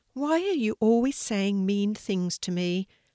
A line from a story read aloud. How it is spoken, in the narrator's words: asked Sammy sadly